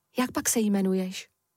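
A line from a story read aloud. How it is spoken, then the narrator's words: Gentle question. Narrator (Czech): mírným hlasem se zeptal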